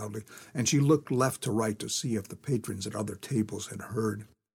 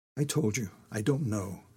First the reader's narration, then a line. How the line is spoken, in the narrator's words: Sophie replied more softly